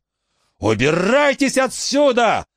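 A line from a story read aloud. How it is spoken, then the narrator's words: Yelled. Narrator (Russian): заорал он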